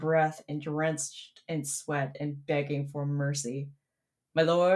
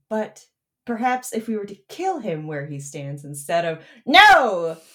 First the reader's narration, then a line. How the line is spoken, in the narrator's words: Skeletor screeches